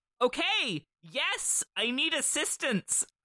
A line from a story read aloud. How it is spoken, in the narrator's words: Christy shouted